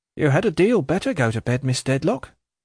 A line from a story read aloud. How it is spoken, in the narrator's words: quoth the maid sharply